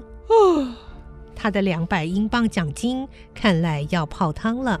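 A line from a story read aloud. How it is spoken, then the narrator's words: Long sigh. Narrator (Chinese): 班比斯船长忍不住长叹一声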